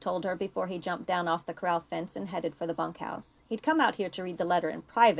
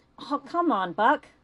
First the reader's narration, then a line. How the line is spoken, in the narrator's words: Lou pleaded